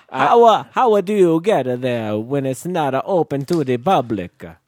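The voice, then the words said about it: Old-fashioned elderly voice. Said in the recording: “why are you talking like a great grandparent? ... 1905?”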